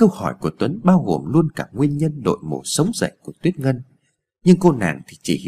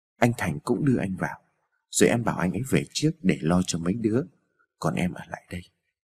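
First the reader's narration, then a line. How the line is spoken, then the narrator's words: Gentle. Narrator (Vietnamese): Tuyết Ngân dịu dàng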